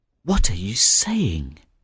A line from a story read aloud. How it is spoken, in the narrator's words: murmured the young fisherman